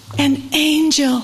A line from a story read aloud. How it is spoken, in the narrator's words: she exclaimed